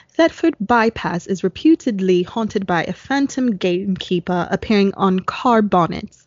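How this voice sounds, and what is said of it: Put-on British accent. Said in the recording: “I'm going to try to do this in a British accent.”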